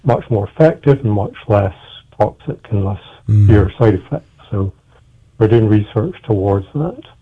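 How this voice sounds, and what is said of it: Scottish accent. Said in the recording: “I'm originally from Scotland. You probably maybe gathered that from my name and from my accent as well.”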